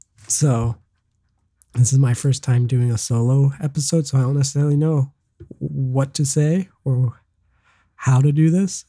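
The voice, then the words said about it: Congested, sick-sounding voice. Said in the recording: “because I'm sick. I have a bunch of mocos, if you can't tell from my voice... I have a bunch of boogers in my throat and I'm sick”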